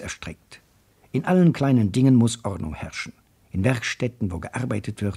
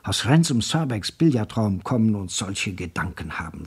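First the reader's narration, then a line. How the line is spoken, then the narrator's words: Whisper. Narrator (German): flüsterte er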